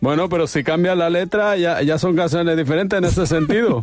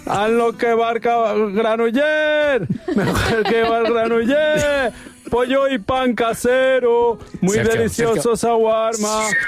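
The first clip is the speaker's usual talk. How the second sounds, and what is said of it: Loud sung street-vendor chant. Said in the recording (Spanish): “siempre cantas la misma canción con la misma tono, con la misma tonada, decibeles”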